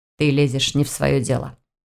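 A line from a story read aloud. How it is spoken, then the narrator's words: Obedient, smiling, not rude. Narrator (Russian): послушно повторил за ней Войтых, продолжая улыбаться, чтобы это не прозвучало слишком грубо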